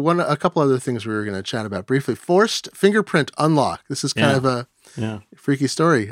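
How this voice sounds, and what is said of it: Usual voice. Nothing is said of it.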